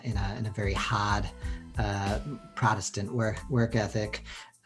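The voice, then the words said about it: Put-on Boston accent. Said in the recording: “pulling in my Boston accent there.”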